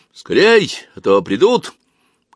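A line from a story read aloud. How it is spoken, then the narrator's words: Rook-like croaking shout. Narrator (Russian): крикнул Бармалей своим грачиным голосом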